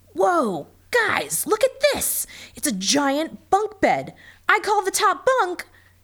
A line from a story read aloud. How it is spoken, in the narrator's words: yelled Michael